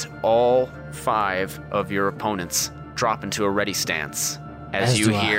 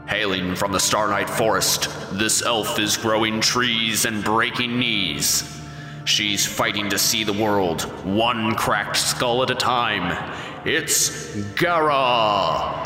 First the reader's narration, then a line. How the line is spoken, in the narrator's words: the booming voice says